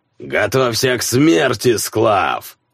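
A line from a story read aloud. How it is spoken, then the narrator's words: Booming. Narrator (Russian): прогудел Берсерк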